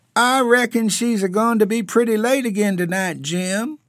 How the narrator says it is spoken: remarked in a squeaky falsetto

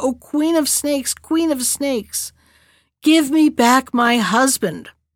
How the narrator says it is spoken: the princess cried again

